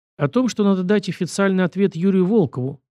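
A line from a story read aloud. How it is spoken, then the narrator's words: Sighing. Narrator (Russian): вздохнул я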